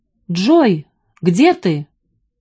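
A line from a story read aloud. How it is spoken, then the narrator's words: Shouting. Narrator (Russian): закричал он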